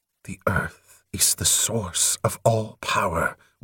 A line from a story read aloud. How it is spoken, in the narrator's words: whispered Atyaran